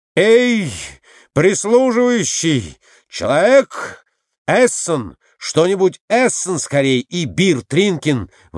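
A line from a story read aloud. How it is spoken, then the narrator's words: Yelling. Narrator (Russian): вопит Николай Иванович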